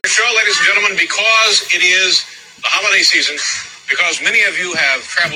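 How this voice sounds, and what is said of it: Usual voice. Nothing is said of it.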